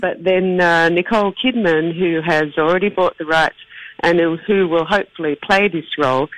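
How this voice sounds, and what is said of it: Flat Australian accent. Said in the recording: “my very flat Australian accent”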